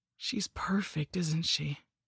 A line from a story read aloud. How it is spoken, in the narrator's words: he whispered to me